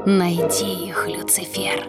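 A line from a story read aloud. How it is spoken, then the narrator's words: Stepmother whispering. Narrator (Russian): шепнула ему мачеха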